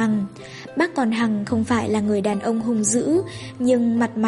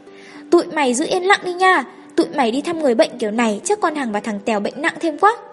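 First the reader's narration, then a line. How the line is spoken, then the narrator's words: Shouting. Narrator (Vietnamese): Thằng Nghị hét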